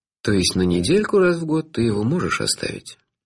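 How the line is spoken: Gloomy question from distant caller. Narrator (Russian): мрачно уточнил бесконечно далекий абонент

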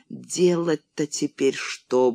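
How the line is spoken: Muttering. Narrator (Russian): бормотал Петр

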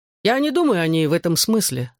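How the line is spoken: Laughing. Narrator (Russian): засмеялся

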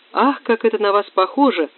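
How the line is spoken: Exclamation. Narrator (Russian): воскликнула Ко

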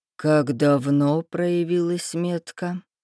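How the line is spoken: Impassive. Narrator (Russian): спросил Рейнар бесстрастным тоном

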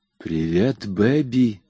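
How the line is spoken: Whispered. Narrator (Russian): прошептал он

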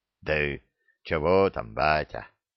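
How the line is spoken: Embarrassed grumble. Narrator (Russian): смущенно проворчал Храд

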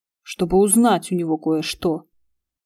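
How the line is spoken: Grumble. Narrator (Russian): проворчал Игорь

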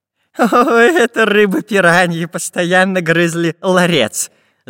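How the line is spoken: Professor laughing. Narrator (Russian): Засмеялся профессор Пыхтелкин

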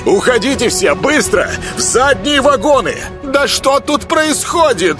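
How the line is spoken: Shrill elderly woman shouting. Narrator (Russian): Визгливо выкрикнула пожилая дама

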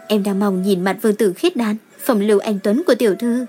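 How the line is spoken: Smiling. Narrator (Vietnamese): Ngọc Hòa mỉm cười nói

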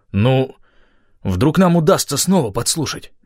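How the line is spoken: Uncertain. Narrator (Russian): неуверенно предположил он

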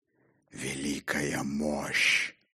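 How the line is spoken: Hoarse rasp. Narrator (Russian): прохрипел он

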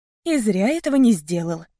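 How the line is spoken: Calm. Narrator (Russian): спокойно сказала я

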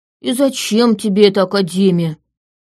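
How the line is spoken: Grumbling. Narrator (Russian): ворчал

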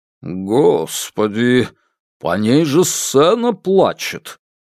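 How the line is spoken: Respectful deep bass. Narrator (Russian): уважительно пробасил Неверов

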